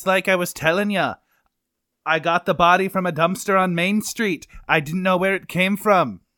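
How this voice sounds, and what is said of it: Put-on Irish accent. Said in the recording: “you freaking leprechaun ... You're not even from Ireland ... So drop this whole accent thing”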